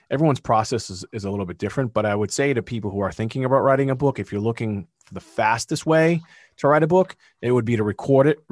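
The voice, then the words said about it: Massachusetts accent. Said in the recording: “There's my Massachusetts accent.”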